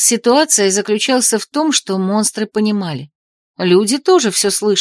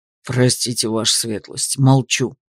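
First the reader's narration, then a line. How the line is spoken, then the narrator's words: Cowed, barely audible mutter. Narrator (Russian): Бонни аж скукожился и пробормотал едва слышно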